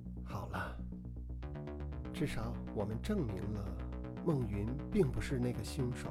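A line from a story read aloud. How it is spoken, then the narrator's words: Soft sighing comfort. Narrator (Chinese): 穆剑云深切感受到对方心中的痛楚，他轻叹着，柔声安慰道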